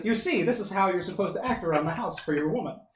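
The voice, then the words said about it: 1950s documentary narrator, Transatlantic accent. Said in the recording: “with a narration that is like 1950s style documentary narration ... Transatlantic accent”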